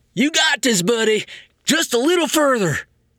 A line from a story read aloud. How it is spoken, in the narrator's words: the dumb werewolf called out